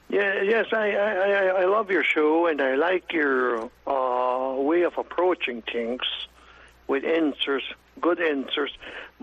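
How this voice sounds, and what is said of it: German Russian Ukrainian Hutterite accent. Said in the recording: “my German, Russian, Ukraine, and Hutterish accent, you might have a problem understanding me”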